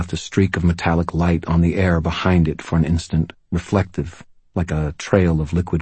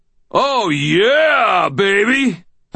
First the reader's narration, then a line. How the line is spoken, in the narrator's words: I heard myself howl, elated